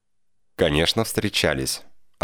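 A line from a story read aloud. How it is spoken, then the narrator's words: Smirking stranger. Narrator (Russian): хмыкнул незнакомец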